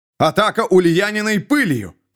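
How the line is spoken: Shouting. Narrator (Russian): кричал лорд Эммон

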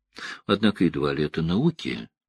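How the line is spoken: Sighed. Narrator (Russian): вздохнула Элайн

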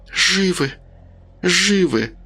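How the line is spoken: Almost silent mumbling. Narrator (Russian): уже почти беззвучно бормотала Рита

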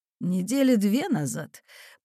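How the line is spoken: Wheezing, captain. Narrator (Russian): просипел капитан

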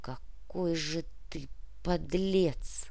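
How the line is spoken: Muffled, hollow voice. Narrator (Russian): Глухо произнесла Лариса

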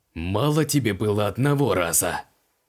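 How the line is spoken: Hoarse rasp. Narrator (Russian): Прохрипел Креол

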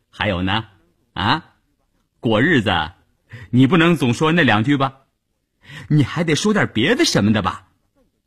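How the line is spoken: Laughing. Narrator (Chinese): 谭志林还是笑着说

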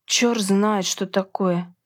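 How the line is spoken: Grumbling. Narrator (Russian): проворчала Джема

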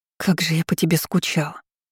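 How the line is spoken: Muffled whisper. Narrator (Russian): прошептала я, уткнувшись в воротник его пальто

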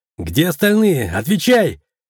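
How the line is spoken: Shouted. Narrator (Russian): крикнул я

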